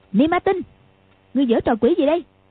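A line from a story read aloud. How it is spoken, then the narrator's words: Shout. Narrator (Vietnamese): quát lên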